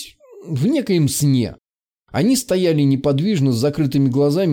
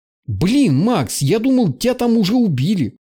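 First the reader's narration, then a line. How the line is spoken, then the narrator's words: Joyful and anxious. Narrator (Russian): радостно и тревожно сказал Барт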